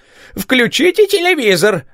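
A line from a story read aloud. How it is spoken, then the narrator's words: Exclamation. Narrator (Russian): воскликнула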